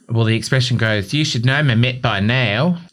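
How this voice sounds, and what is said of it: Put-on New Zealand accent. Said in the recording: “I said it with a Kiwi accent ... You did, actually, yes.”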